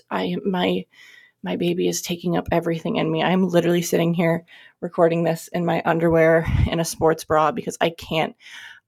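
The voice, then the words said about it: Out of breath, breathy speech. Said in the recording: “I sound so out of breath.”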